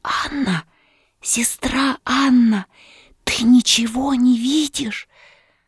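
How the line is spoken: Whispering wife. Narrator (Russian): отвечала его жена и прибавляла шепотом

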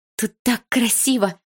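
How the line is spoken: Exclaiming. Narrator (Russian): воскликнула я

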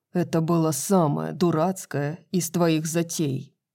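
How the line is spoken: Growled. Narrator (Russian): прорычал Хант

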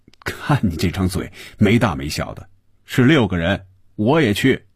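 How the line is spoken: Laughing. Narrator (Chinese): 红军笑着说

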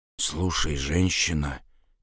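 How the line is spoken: Quiet. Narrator (Russian): тихо сказал он

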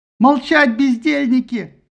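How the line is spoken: Old man's hysterical shout. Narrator (Russian): истерично закричал старик

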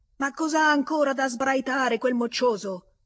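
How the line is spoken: Furious man yelling. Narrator (Italian): Una voce furibonda, una voce d'uomo, urlò

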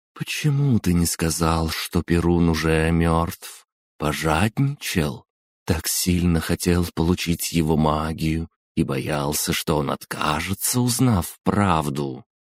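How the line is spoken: Breathy drawl. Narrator (Russian): с придыханием протянула Метида и спросила

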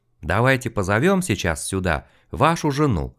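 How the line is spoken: Calm. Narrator (Russian): спокойно предложил мужчина

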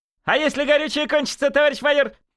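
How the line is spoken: Joking shout. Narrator (Russian): выкрикнул какой-то юморист

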